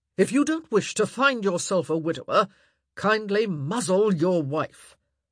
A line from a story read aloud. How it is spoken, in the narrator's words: he barked